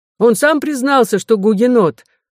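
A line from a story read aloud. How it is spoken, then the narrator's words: Two shouting together. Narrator (Russian): закричали виновные оба вместе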